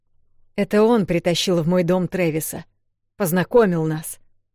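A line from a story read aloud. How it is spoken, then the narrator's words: Growled. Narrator (Russian): зарычал Пирс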